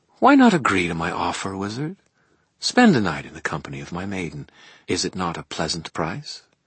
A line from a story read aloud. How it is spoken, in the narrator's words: My voice came out more quietly than I intended